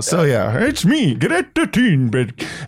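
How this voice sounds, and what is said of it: Put-on Swedish accent. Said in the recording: “do a Scandinavian voice ... I'm doing this fucking Swedish show”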